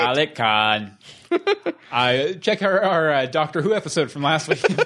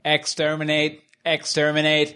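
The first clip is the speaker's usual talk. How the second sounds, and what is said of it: Dalek robotic voice impression. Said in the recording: “Dalek. ... You want more Dalek impersonations.”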